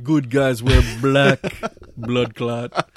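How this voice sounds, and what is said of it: Put-on Jamaican accent. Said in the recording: “Us doing the accents”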